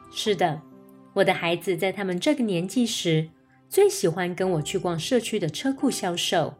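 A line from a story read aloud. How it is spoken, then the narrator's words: Laughing reply. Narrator (Chinese): 我笑着回答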